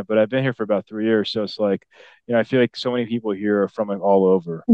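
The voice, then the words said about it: Chicago accent. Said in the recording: “originally from Chicago, as you can tell by my accent. I don't have a Dallas accent”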